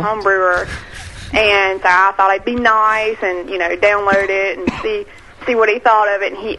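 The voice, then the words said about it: Cute Texan accent. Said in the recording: “cute accent she's got ... What part of Texas are you from?”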